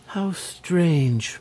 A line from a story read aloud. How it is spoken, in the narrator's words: murmured Cecily, much impressed